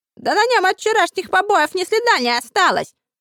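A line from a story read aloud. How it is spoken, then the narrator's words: Shouted out. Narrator (Russian): выкрикнул один из сообщников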